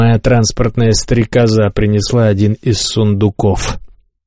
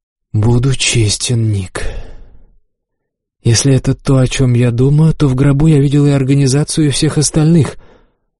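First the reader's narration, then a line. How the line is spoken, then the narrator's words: Sighing. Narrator (Russian): Моралес вздохнул и сказал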